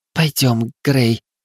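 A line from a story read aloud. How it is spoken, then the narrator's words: Hoarse young woman. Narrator (Russian): хрипло произнесла девушка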